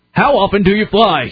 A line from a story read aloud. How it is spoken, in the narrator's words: He yelled at me